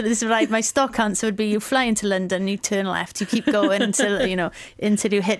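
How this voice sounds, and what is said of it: Welsh accent. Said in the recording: “with my accent, where are you from? ... I'm from Wales”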